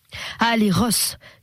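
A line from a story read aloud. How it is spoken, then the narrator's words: Shouting. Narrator (French): cria un gros Taupin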